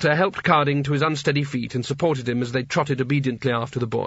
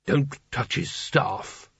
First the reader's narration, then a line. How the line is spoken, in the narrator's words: muttered Carding